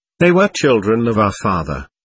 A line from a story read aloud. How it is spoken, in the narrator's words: I answered sadly